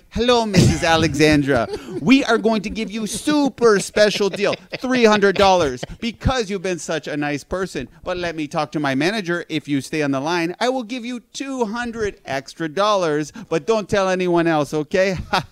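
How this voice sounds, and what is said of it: Imitates a scam telemarketer's voice. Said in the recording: “my imitation of those scams ... like Nigerian Prince type scam”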